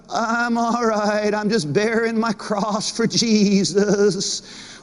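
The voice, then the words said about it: Bleating goat-like voice. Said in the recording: “Why do you sound like a goat?”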